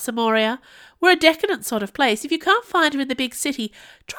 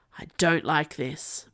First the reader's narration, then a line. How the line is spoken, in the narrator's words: muttered the voice of a youth